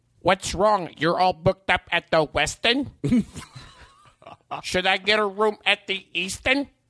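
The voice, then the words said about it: Imitates another person's voice. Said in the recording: “my impression of Andy Kindler's impression of my impression of him”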